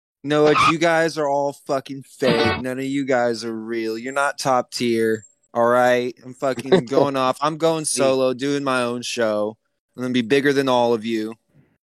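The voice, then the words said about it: Mocking impression of other people. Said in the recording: “Is that your Ghostbusters impression? ... That's my impression of like half of the people that have become associated with us.”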